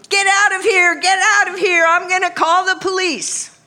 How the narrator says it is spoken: yelling

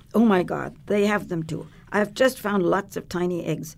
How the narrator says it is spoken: she cried out, shuddering

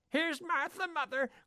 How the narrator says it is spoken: cried the two young Cratchits

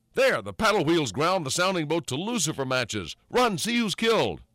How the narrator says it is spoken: Thornburg exclaimed

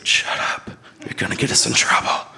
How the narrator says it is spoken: He whispered

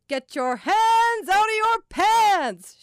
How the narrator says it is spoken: she boomed, holding on to the last word, loving the echo in the mall

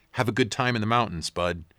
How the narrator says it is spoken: she said

